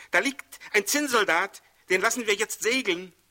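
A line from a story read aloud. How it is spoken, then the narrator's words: Surprised exclamation. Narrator (German): rief der eine überrascht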